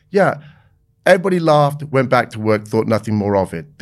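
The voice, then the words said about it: British accent. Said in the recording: “the British guy, that really personable British guy with that, you know, lovely accent.”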